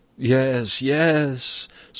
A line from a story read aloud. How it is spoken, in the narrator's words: Sophocles groaned